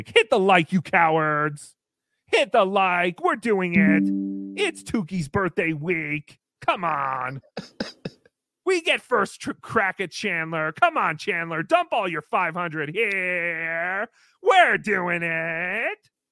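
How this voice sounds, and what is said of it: Imitates another person's voice. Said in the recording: “That is my NLO impression.”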